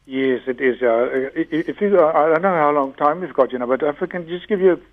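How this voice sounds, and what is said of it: Congested, blocked-up voice from cold. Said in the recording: “I'm sorry if I sound a little bit closed up or so. I've got a little bit of a cold.”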